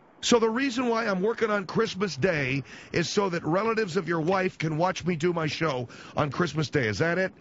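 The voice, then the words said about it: Raised, yelling voice. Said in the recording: “lower your voice ... I don't mean to yell.”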